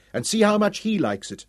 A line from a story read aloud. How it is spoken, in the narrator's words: Dorian said furiously